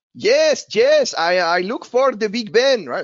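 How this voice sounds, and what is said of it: Put-on Spanish accent in English. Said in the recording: “Spanish. Of course, that's not your accent because you speak much better than that”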